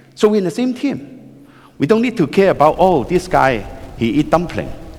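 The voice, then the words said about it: Speaks with a noticeable foreign accent. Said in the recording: “my strange accent”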